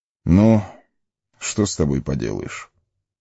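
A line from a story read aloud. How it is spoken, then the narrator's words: Resigned sigh. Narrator (Russian): вздохнул Элронд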